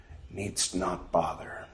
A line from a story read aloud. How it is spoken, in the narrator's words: Job said slowly, quietly